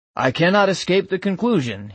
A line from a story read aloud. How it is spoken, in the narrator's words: he said